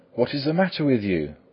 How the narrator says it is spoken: cried the host in alarm

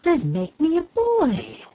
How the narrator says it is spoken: exclaimed the fairy eagerly

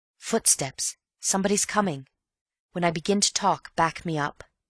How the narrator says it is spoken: whispered in his ear

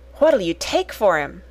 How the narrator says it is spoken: she said excitedly

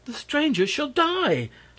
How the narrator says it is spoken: snapped one

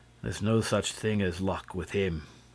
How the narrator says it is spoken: declared the inspector, who always spoke of Lupin in a solemn tone without mentioning his name

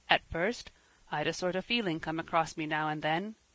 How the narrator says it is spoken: he was saying in a subdued tone

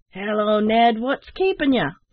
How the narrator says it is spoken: roared the captain

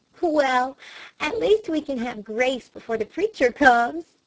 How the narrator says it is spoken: she laughed

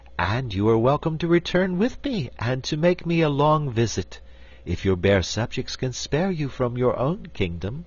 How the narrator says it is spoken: returned Ozma sweetly

